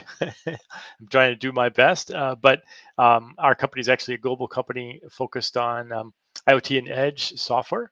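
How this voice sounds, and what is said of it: Non-British English accent. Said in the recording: “As you can probably tell by my accent, I am not uh, British.”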